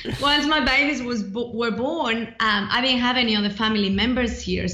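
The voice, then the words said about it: Mixed Mexican and Australian accent. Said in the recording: “I'm originally from Mexico, even though I've been in Australia for a long time, hence the mixed accent.”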